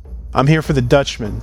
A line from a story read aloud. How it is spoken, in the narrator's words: Pax said